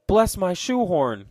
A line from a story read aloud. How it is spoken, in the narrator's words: cried Mr